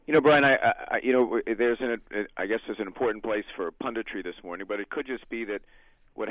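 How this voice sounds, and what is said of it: Hoarse, strained voice. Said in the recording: “Forgive my voice. I'm a little bit exhausted this morning from shouting and yelling last night.”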